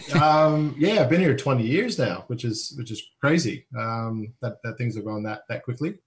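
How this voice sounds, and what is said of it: Slight American accent. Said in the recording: “I get a bit of an accent there too... it's still there. I can't get rid of it... Originally from Los Angeles, California”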